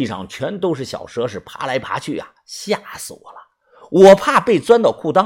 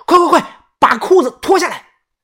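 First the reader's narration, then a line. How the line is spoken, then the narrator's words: Panicked shout. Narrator (Chinese): 想起了老周的下场，我大喊道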